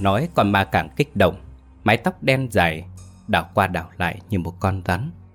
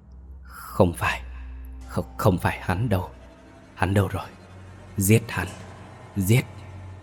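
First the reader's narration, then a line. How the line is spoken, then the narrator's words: Ghostly muttering. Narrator (Vietnamese): con ma da lướt qua bên mình lẩm bẩm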